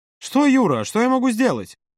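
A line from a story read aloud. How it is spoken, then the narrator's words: Irritated exclamation. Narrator (Russian): раздраженно воскликнул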